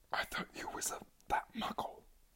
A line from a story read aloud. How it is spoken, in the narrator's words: whispered Morfin